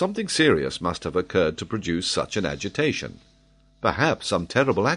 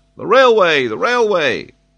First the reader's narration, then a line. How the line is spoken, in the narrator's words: Every now and then there was a shout